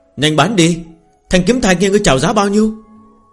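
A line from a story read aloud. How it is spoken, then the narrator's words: Raised urging call. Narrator (Vietnamese): Có người cao giọng hô thúc giục Phương Hành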